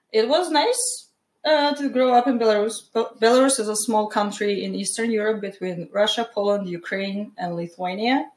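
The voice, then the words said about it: Belarusian accent. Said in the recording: “the accent, obviously you're from Belarus.”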